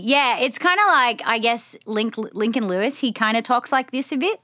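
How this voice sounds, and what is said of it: Put-on Australian accent, rising intonation. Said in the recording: “give us an Australian accent ... Sydney ... you're talking like this a bit ... we go up at the end”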